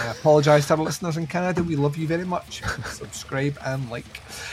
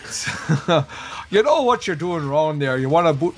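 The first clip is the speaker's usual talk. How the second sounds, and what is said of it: Poor attempt at Canadian accent. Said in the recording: “That's also, once again, nothing like a Canadian accent”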